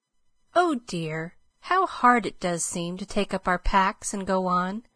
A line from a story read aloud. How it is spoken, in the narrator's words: sighed Meg